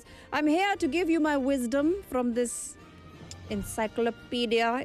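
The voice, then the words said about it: Inconsistent put-on character accent. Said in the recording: “my accent is all over the place”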